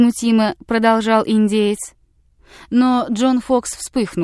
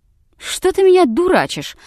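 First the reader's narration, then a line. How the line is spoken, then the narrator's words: Mock-angry exclamation. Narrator (Russian): воскликнул с притворным гневом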